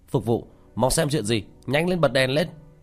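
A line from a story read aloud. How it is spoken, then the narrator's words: Raised voice calling out. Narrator (Vietnamese): Ở trong đại sảnh có người khách cao giọng hô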